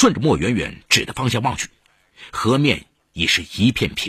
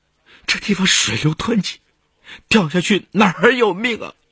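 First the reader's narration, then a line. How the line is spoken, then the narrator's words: Tearful voice. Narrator (Chinese): 王学潘带着哭腔说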